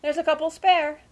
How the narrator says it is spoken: exclaimed Uncle Parker

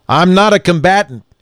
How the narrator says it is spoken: he said, loudly but in a steady voice

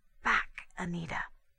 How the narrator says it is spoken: she whispered

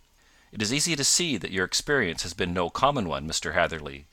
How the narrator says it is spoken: said he

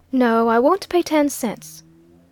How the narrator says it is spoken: said the lady, coldly

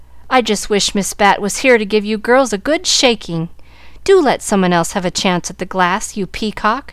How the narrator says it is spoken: exclaimed Molly Loo

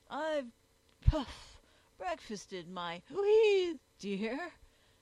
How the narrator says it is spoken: replied Jog pompously

